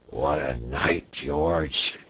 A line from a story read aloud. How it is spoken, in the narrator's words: he murmured